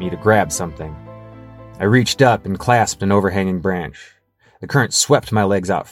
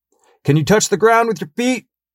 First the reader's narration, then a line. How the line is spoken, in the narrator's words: I yelled back